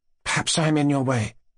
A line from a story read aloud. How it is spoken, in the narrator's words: she began timidly, hardly audibly